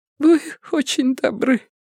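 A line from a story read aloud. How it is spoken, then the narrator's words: Slightly sobbing. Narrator (Russian): слегка всхлипывая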